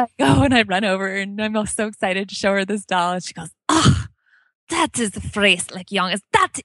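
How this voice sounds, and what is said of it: Usual voice. Nothing is said of it.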